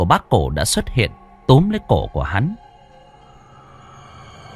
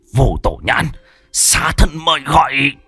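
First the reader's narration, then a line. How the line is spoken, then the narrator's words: Hiss. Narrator (Vietnamese): Hắn rít lên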